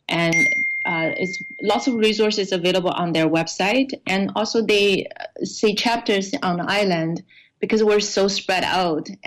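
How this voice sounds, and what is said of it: Non-Canadian, Chinese-accented English. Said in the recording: “you don't sound Canadian ... Oh, I'm Chinese. I moved to Canada 13 years ago ... Beijing”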